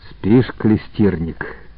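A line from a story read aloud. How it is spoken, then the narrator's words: Calm sincere question. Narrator (Russian): спросил спокойно, без насмешки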